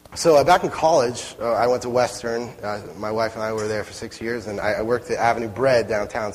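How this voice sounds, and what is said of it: Slightly hoarse, strained voice. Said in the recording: “I'm losing my voice a little bit”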